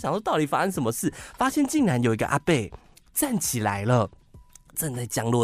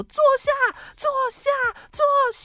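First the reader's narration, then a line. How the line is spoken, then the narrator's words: Loud distant voice. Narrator (Chinese): 远方有一个很大声的声音说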